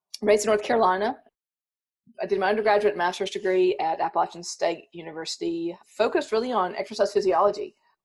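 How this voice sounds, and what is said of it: Slight Southern US accent. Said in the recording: “You probably hear a slight southern accent. I think it's slight, but when I go home, they think it's gone.”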